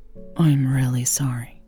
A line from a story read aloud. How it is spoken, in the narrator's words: she said quietly